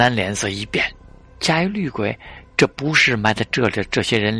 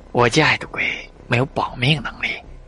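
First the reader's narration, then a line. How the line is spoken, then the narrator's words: Soft, fearful, hesitant. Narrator (Chinese): 郭乐脸色惨白，他似乎有些难言之隐，轻声说道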